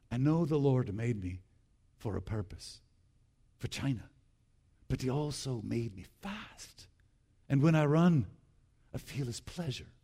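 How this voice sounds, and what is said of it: Put-on Scottish accent. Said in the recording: “I'll do my faux Scottish accent here.”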